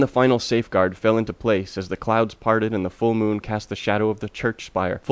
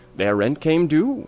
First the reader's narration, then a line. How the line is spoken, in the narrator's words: the apparition croaked